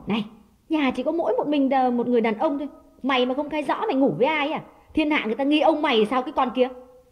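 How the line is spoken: Harsh, accusing. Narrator (Vietnamese): nàng gay gắt nói

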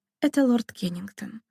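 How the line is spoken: Dejected, sinking voice. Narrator (Russian): упавшим голосом сказала Дарина мистеру Джонсону

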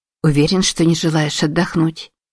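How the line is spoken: Soft question. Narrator (Russian): мягко спросила Узуме

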